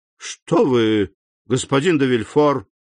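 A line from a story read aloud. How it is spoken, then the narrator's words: Exclamation. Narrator (Russian): воскликнул председатель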